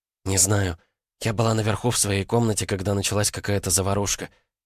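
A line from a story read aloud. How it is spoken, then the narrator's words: Whispered reply. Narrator (Russian): шепотом ответила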